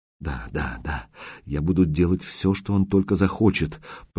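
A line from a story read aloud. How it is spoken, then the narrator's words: Angry whisper through sobs. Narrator (Russian): прорывался сквозь рыдание ее злой шепот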